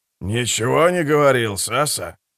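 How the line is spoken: Elderly man answering. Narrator (Russian): ответил пожилой техник

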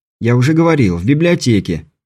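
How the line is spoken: Slightly irritated, dismissive. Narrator (Russian): чуть раздраженно отмахнулся Беляев

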